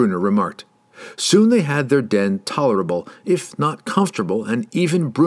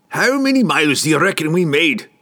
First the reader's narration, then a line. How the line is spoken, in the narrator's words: Brunner grumbled at Drizzt